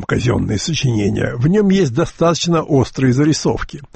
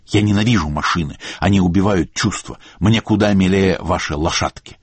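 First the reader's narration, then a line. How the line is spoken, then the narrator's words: Irritated reply. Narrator (Russian): Эллен раздраженно ответила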